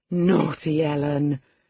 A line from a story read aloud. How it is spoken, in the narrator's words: exclaimed Catherine